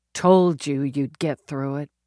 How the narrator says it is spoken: she mumbled, thinking of the girl she'd been in the dream

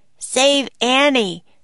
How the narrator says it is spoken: he shouted

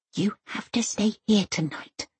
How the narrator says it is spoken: she whispers

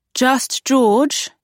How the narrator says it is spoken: she called out

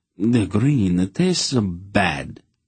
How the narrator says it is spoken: Count Drevor said drowsily

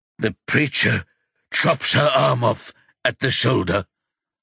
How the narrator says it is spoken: Rocky gasps

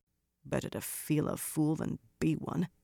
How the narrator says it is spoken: Birgitta muttered, half under her breath

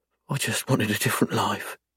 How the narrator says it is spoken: she whispers quietly

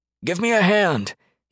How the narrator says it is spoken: he yelled over the deafening stream

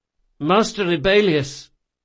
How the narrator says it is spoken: said Locke in a weak voice, made nasal by his broken nose

